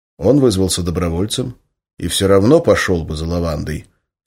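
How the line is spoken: Calm. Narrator (Russian): все так же спокойно произнес контрразведчик

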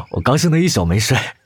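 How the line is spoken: Silly happy laugh. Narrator (Chinese): 谢之方依然甘之如饴，闻言傻笑道

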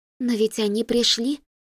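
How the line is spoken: Whisper. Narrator (Russian): шепнула Кася

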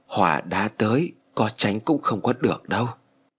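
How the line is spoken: Sighing. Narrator (Vietnamese): Thầy thở dài rồi nói

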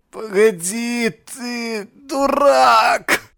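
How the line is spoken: Groaning. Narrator (Russian): Стонал доктор

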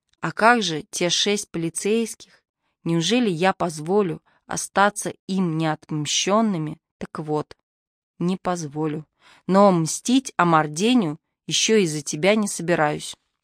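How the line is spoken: Muffled. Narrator (Russian): глухо сказал Георг в стену

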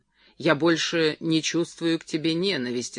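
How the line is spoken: Calm. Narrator (Russian): сказал Джерри спокойно

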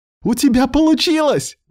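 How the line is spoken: Exclaiming, breaking silence. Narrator (Russian): воскликнула Лида, нарушая тишину округи

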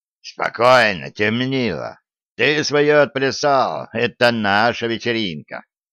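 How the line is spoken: Harsh hoarse voice. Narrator (Russian): Хриплый голос резко произнес

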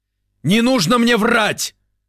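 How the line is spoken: Furious yelling, spitting. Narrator (Russian): заорал он, брызгая слюной ей в лицо

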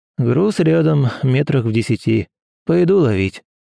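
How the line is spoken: Sighing. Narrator (Russian): вздохнул исследователь

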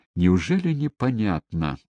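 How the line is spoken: Irritated interruption. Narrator (Russian): раздраженно перебил Муровец

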